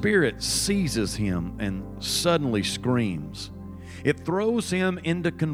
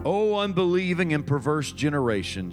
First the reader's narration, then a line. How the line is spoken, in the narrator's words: Jesus replied